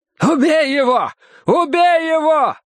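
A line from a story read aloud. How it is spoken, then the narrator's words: Yelling. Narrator (Russian): орал Стемпер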